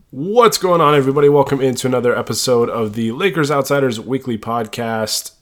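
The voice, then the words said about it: Congested, stuffed-up nasal voice. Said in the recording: “I sound a little stuffed up. ... My nose is running. I got the sniffles a little bit. Been battling a cold”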